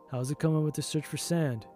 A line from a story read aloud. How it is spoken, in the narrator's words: he said